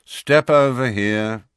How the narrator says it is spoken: said the wizard in a bored voice

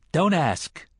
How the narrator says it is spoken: the man in black said sharply, yet he smiled

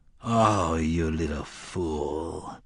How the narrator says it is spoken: Court nearly groaned

